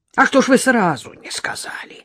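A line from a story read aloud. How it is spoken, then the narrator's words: Hissed in a lowered voice. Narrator (Russian): зашипел клиент, понизив голос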